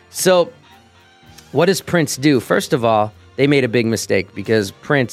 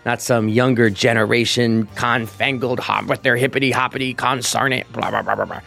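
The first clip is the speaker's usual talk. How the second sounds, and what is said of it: Grumpy old-man impression of Roger Goodell. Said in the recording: “that's my impression of Roger Goodell.”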